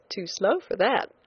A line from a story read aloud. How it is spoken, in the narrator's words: I said teasingly